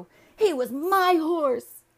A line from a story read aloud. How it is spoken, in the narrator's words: he cried